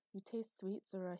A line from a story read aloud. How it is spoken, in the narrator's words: mumbled, drifting back to sleep